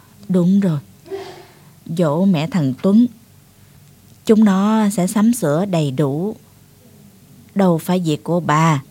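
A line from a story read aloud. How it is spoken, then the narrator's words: Sighing old man. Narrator (Vietnamese): Ông Đặng thở dài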